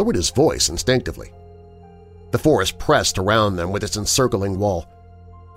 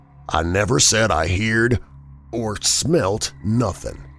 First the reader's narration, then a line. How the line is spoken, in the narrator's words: he said slowly and emphatically, in an oddly altered voice that conveyed somehow a touch of defiance